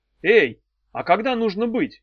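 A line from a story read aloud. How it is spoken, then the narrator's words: Calling after someone. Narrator (Russian): крикнула ему вслед Дафна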